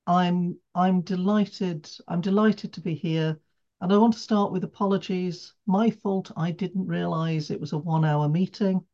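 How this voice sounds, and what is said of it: British accent. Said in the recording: “as you can tell from my accent, I'm British”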